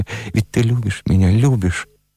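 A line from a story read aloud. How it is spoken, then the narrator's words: Quiet hurried question. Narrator (Russian): тихо и торопливо спрашивая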